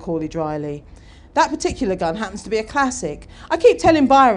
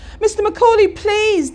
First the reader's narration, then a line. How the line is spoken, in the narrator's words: Dan pleaded